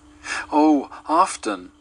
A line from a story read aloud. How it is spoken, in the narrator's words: cried the little girl